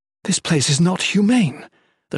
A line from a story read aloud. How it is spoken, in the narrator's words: the Shalane exclaimed